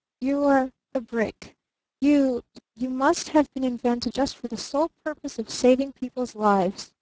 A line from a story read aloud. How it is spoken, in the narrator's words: he stammered